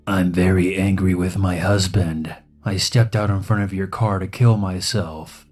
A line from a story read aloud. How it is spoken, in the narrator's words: she replied in a raspy, slightly unhinged voice